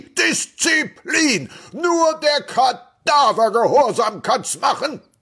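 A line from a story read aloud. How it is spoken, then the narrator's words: Shouting. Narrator (German): Er schrie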